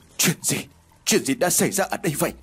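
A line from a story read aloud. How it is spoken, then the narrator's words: Trembling voice. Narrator (Vietnamese): Tân run rẩy nói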